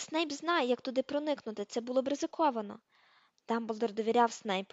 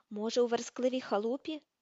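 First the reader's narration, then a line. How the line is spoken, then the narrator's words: Plain. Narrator (Ukrainian): запитав Гаррі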